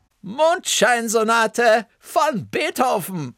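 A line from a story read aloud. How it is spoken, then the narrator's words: Calling out. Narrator (German): rief Bertha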